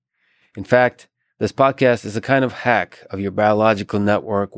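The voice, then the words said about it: Monotone, low-energy voice. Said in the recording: “my monotone, low-energy voice”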